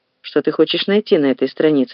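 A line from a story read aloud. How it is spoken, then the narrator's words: Plain. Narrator (Russian): спросил сыщик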